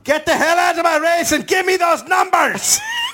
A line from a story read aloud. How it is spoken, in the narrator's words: screaming